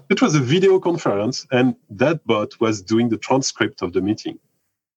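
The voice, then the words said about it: Speaks with an accent. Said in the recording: “Maybe with my accent, it's more difficult for the bot”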